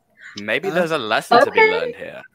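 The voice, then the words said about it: Imitates a film character's accent. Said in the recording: “I've been told I have a pretty good Obi-Wan accent”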